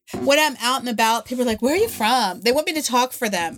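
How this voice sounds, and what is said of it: Fast West Virginia accent. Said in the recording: “I'm from West Virginia. This is how we all talk... We speak really fast”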